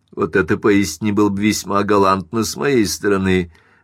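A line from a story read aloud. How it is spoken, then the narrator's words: Laughing. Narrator (Russian): рассмеялся Линд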